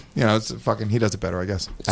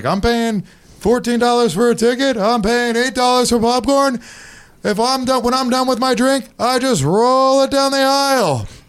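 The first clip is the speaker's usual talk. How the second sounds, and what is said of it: Good Jerry Seinfeld impression. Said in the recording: “He also sounds like Seinfeld. That's pretty cool. ... That was a pretty good Seinfeld impression.”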